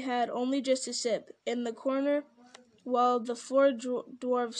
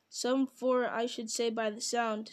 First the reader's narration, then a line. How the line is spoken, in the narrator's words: said Filly